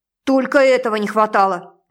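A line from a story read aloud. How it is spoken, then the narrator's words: Bark. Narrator (Russian): рявкнула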